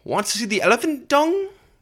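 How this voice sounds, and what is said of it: Imitates another person's accent. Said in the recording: “That was my best attempt at a Jillian accent.”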